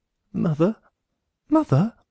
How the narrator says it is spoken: said Gregor quietly

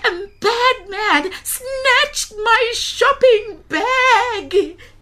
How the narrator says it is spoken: cried Gogo

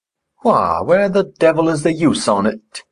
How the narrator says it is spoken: growled Hareton

